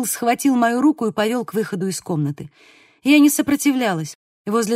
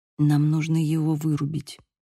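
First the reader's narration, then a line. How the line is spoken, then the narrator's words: Said quietly. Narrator (Russian): сказал он тихо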